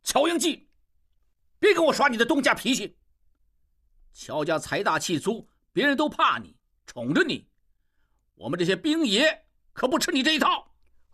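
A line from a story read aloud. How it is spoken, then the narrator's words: Shouting. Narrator (Chinese): 吴秉仁大叫起来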